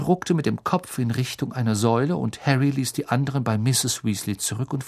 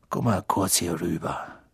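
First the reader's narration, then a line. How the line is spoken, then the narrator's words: Quiet. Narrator (German): Weasley leise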